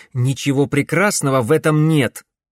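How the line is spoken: Snapping. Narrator (Russian): огрызнулся Алекс

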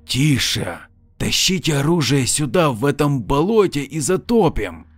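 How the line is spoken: Groaning hoarse rasp. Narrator (Russian): Лейтенант издал звук наподобие стона и прохрипел

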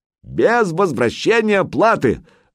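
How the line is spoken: Shouted. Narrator (Russian): выкрикнул Санек

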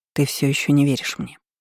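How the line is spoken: Quiet. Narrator (Russian): тихо проговорила я

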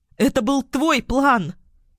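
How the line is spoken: Screaming, struggling. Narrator (Russian): Юля закричала, пытаясь вырваться

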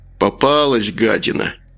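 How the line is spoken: Grumbled. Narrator (Russian): проворчал Макар

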